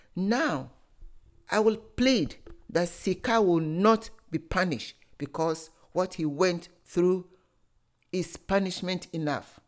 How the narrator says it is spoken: Openyin Fache, the elder of the village, loudly said

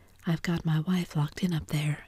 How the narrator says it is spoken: explained Wilson calmly

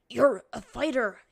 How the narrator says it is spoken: he choked out

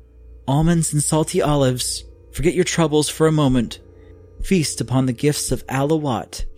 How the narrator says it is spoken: cried

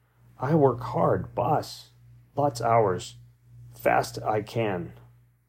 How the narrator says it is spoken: Nick pleadingly, apparently on the verge of tears, said hesitantly

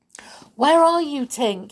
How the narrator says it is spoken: he cried

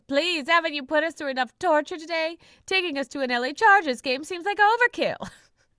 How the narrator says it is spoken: Lila shouts

